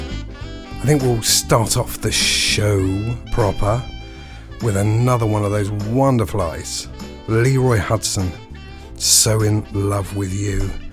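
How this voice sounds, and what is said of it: Husky voice. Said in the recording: “a husky, sexy voice. I got a bit of a cold”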